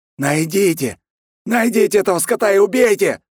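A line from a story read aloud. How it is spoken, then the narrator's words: Yelling. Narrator (Russian): орал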